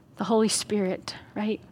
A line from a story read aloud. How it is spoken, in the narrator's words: He whispers to us